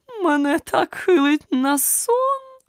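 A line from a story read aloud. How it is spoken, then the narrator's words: Moaning. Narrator (Ukrainian): простогнала вона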